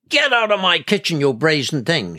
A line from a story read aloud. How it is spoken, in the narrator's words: shouted